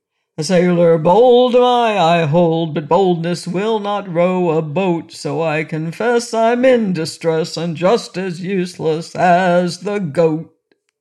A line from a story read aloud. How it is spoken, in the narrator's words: he sang in a merry voice